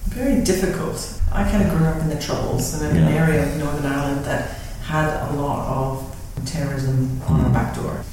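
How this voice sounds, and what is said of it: Northern Irish accent. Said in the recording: “the more astute listener will detect a accent in my guest today. It is from Northern Ireland. She is from Tyrone”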